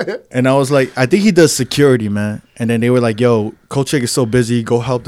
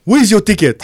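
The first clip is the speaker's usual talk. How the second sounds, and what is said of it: Imitates an African accent. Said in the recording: “how was his accent? ... He was African, bro.”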